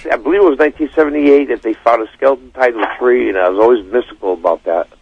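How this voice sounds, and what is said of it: Raspy, just-woken-up voice. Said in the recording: “I just got up ... my voice is a little raspy”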